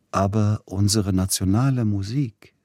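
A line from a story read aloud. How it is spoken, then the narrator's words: Plain. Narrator (German): sagte Edward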